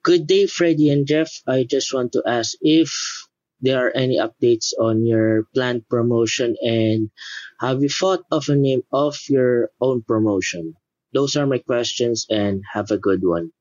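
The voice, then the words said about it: Philippine accent, pleasant voice. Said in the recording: “That sounds like a Philippine accent, man. I love your voice. You sound awesome, by the way. You should do voiceover work.”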